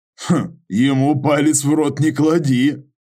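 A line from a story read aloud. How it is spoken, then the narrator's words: Laughing. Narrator (Russian): рассмеялся Юра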